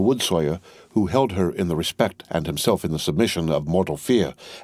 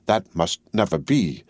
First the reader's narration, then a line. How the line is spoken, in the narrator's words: croaked Jacques III